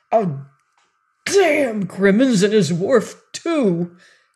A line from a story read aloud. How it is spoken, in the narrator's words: cried Todd